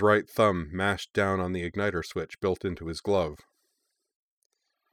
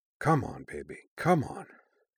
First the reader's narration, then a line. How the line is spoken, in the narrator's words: Griffin muttered